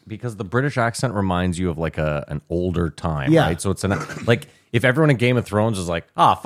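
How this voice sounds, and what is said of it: Usual voice. Nothing is said of it.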